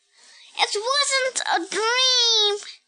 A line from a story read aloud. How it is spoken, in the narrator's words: shouted May